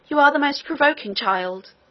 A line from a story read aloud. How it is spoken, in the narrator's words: cried the nurse